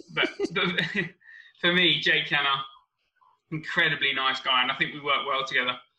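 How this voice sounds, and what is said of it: Fast-paced common Essex accent. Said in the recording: “I'm very fast-paced. I've got somewhat of a common Essex accent.”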